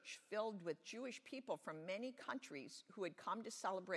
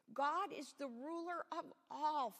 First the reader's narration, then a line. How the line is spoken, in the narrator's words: Philip exclaimed